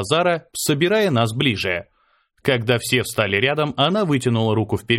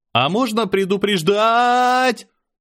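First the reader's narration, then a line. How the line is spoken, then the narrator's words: Yelled. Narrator (Russian): заорал я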